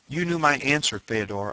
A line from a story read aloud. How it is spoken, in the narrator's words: I replied